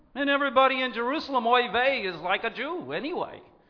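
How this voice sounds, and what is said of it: Put-on Jewish accent. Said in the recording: “That was my Jewish accent”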